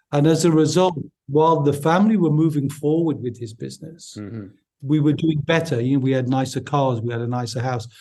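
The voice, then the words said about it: Newcastle Geordie English accent. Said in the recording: “my accent is from Newcastle upon Tyne”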